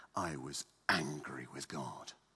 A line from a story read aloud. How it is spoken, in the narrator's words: secretly, if not blasphemously, certainly murmuring greatly